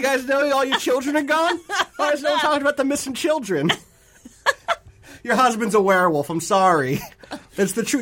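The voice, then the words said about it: Put-on Brooklyn New York accent. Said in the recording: “this witcher has adopted a very weird accent ... You know Geralt is from Brooklyn? ... The New York witcher”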